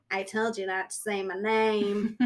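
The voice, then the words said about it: Southern twang impression of a friend. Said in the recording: “He's got a twang, too... he's super Southern... that impression of him is perfect... Spot on.”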